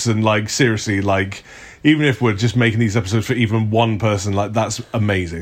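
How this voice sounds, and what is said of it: Very posh RP English accent. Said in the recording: “Your accent is very RP, like, yeah, very posh.”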